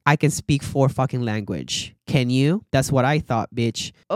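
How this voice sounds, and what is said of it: Non-native English accent. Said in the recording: “you're probably hearing my accent, my faults in speaking in English ... I'm super fucking happy that I have accent, that I am not a fluent English speaker”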